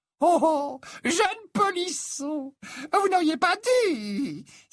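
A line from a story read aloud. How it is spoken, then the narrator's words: Old woman's thin shrill exclamation. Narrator (French): s'exclama la vieille Hepzibah d'une petite voix aiguë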